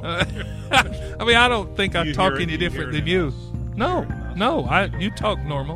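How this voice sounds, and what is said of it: Southern American accent. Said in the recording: “this kind of southern accent”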